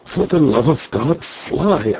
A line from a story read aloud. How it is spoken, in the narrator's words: I whispered